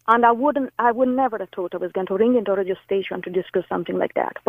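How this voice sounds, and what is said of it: Italian accent in English. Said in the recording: “I detect, obviously, your accent. Were you Spain, Italy? ... Italy.”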